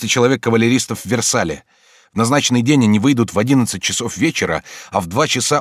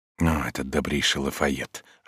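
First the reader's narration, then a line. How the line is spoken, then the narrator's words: Whispering. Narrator (Russian): шепотом говорил Калиостро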